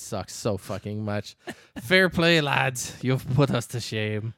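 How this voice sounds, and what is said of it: Usual voice. Nothing is said of it.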